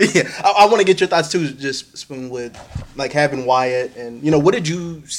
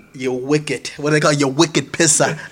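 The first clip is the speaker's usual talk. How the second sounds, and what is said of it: Bad put-on Boston accent. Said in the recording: “Boston accent ... Horrible accent, I'm sure ... that was pretty bad”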